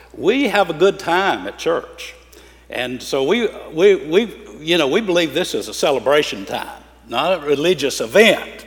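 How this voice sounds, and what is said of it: Southern US accent. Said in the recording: “you'll get used to my accent ... down in the South, in the Bible Belt, where Greg and I come from, and I still live”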